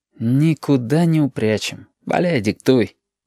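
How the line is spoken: Sigh. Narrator (Russian): вздохнул Абов

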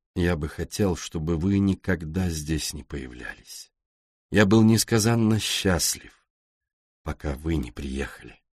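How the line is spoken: Gloomy. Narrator (Russian): Он мрачно добавил

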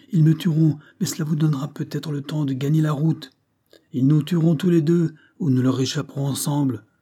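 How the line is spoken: Exclaimed. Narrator (French): s'écria Monroe

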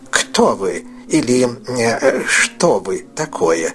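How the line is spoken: Plain. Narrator (Russian): спросил Скрудж

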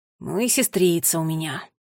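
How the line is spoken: Sigh. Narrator (Russian): вздохнул Финн

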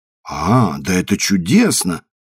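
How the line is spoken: Exclaiming old maid. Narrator (Russian): воскликнула старая дева

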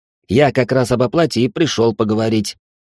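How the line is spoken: Sharp tone. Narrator (Russian): резким тоном ответил Алекс

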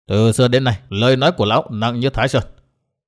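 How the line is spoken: Cold, mocking laugh. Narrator (Vietnamese): Tông Đào cười nhạt

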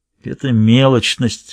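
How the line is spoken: Grumbling. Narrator (Russian): ворчал Сквайр с заднего сиденья

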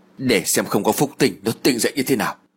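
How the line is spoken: Muttering. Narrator (Vietnamese): Duyên lẩm bẩm

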